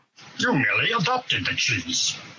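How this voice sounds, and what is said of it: Terrible Bane character voice impression. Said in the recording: “do a terrible Bane impression”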